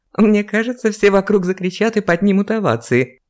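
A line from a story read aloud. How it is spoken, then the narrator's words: Giggle. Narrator (Russian): хихикнула Ева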